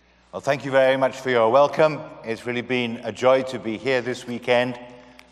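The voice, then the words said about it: British accent. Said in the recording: “as you might guess from my accent, I'm not from Houston. Uh, I'm not from the States. We're from the UK.”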